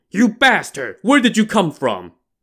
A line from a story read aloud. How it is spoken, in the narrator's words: the monk roared